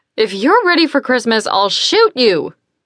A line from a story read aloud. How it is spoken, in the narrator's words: Jo yelled back with a smile in her shout